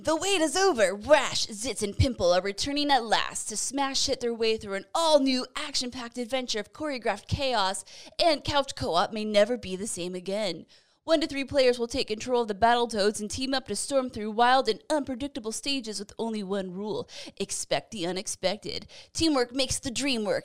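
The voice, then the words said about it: Cheesy 90s narrator voice. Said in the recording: “90s cheesy narrator voice”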